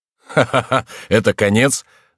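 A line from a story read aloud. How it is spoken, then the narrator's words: Very loud laughter. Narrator (Russian): как никогда громко расхохотался хозяин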